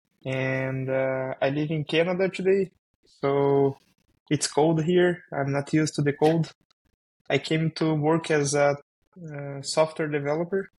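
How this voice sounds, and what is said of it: Brazilian-accented English. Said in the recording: “it's my first podcast in English ... You can see my accent. I'm from Brazil.”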